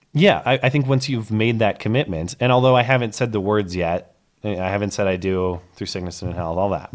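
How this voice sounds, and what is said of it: Hoarse, fading voice. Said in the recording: “I'm kind of losing my voice”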